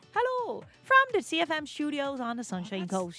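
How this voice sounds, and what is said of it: Put-on Irish accent. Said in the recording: “Irish is my go-to. ... That's actually not bad.”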